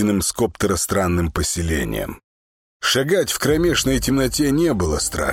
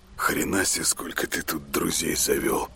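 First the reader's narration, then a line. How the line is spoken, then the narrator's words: Mutter. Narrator (Russian): пробормотал он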